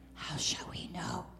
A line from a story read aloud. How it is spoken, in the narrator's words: whispered Simon